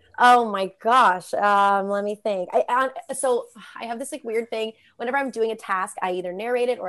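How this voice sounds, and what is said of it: Usual voice. Nothing is said of it.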